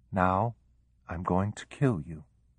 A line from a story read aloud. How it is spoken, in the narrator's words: she repeated quietly, almost as if to herself